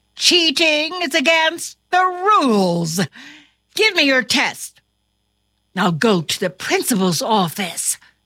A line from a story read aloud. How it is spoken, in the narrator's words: exclaimed his teacher